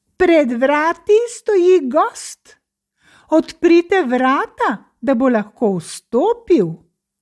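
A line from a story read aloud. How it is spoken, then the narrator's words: Calling out. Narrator (Slovenian): zaklical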